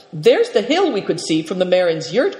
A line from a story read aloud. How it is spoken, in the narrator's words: cried Seven Stars